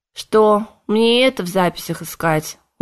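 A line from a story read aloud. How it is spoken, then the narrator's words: Tired speech. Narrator (Russian): устало произнес он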